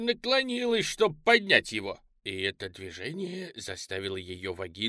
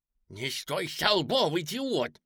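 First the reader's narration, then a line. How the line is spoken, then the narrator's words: Angry hiss. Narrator (Russian): зашипела она на Гнерлока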